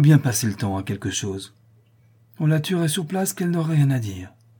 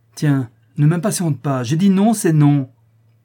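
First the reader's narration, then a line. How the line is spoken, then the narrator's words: She-wolf, very irritated exclamation. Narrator (French): s'écria la louve tout à fait irritée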